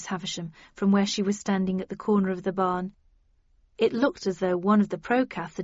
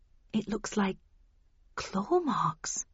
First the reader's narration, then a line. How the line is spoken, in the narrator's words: I murmured